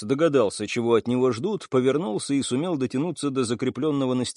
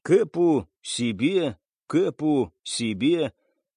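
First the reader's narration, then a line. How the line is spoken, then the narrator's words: Wheezing. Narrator (Russian): захрипел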